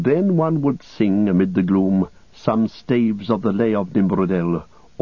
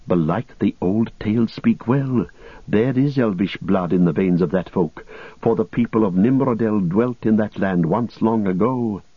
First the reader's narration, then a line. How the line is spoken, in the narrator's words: Men that saw them whispered, saying